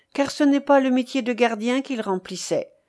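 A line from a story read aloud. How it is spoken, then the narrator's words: Quick, bitter retort. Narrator (French): répartit vivement la jeune femme d'un ton amer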